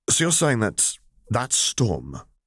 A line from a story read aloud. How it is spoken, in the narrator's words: Sev stammered, pale as a sheet